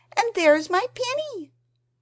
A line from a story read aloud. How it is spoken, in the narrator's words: cried Lucy